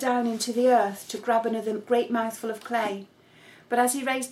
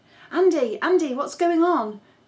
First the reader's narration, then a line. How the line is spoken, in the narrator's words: yelled as he came striding over